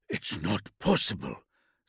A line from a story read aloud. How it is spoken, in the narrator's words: Zitos breathed, stunned